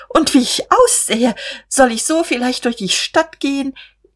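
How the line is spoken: Startled, helpless laugh. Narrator (German): Er erschrak aufs Neue und lachte ratlos

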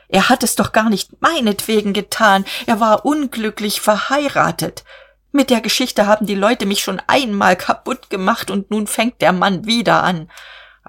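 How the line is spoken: Shrieking. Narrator (German): kreischte er

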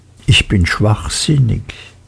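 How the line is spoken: Hushed to a whisper. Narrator (German): dämpfte seine Stimme bis zum Flüstern

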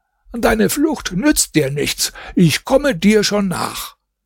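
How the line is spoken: Calling out. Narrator (German): rief ihm zu

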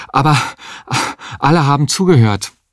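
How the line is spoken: Panting. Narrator (German): sagte er keuchend

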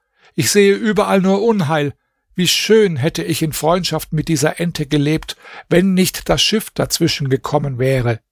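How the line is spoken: Peacock exclaiming. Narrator (German): der Pfau rief aus

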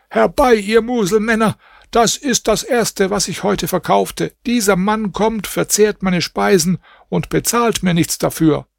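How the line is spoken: Cook shouting. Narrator (German): der Koch schrie

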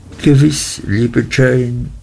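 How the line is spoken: Humble stammer. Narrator (German): stammelte meine Mutter demütig

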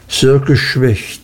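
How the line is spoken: Plain. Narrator (German): sagte Mr

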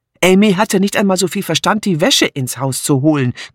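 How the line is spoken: Growled. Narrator (German): knurrte Martha

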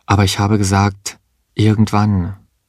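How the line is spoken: Calm. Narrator (German): sagte sie ruhig

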